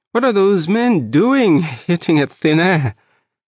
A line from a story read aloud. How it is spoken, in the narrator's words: said, giggling